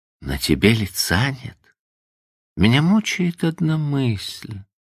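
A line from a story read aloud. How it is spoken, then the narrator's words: Plain. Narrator (Russian): сказала Эйлин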